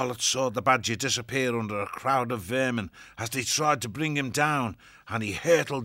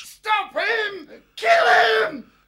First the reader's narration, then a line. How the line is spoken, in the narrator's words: Swart screeched and fell back injured, yelling to his creatures